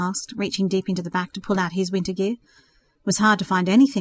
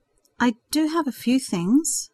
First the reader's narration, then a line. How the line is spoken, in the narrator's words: Jessica replied uneasily